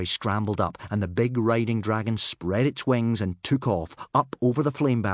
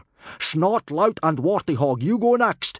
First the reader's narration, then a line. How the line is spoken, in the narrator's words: yelled Gobber the Belch